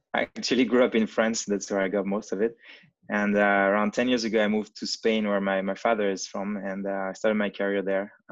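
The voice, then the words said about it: French and Spanish accented English. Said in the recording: “I'm French and Spanish, so that's why I've got, you know, bad accent in most every languages.”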